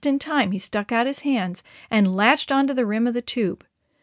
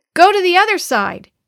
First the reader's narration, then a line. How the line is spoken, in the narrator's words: he cried out to Uncle Randy